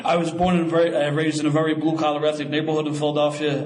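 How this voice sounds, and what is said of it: Philadelphia accent. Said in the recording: “any perceived accent you may think I have”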